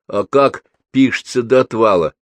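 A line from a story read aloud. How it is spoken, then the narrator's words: Plain. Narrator (Russian): спросила Марья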